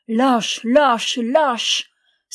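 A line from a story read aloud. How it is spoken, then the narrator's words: Cried out three times. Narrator (French): s'écria-t-il par trois fois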